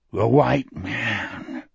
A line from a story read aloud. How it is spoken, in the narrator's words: Wolf said, almost too softly for Jack to hear